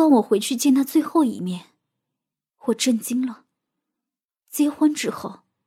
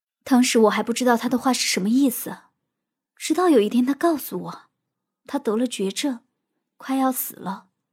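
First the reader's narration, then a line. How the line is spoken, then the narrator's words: Choked, tearful. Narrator (Chinese): 茉莉流泪了，她哽咽的说道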